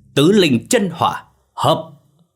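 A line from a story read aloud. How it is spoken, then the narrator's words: Thunderous unison shout. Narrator (Vietnamese): Bốn người đồng thanh hét lớn, giọng vang dội như tiếng sấm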